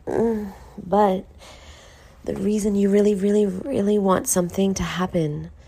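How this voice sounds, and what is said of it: Rough just-woke-up voice. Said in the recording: “I just woke up, so that's why my voice is a little fucked up.”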